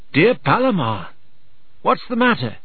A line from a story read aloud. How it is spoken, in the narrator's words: asked Arcite in a worried voice